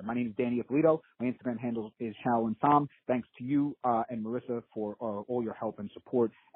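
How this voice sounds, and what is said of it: Staten Island New York accent. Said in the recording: “your Staten Island accent”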